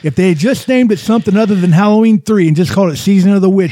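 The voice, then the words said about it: Imitates another person's voice. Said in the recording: “That was my impression of Dustin.”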